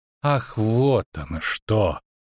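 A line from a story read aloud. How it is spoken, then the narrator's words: Drawled. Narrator (Russian): протянул Дайнти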